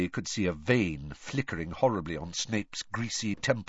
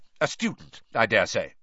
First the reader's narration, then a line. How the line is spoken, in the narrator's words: said Snape